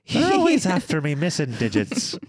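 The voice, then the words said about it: Put-on Irish accent. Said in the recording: “Why are you doing an Irish accent?”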